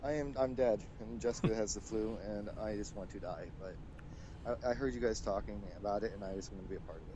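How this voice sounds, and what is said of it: Tired, low-energy voice. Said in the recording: “You sound so tired.”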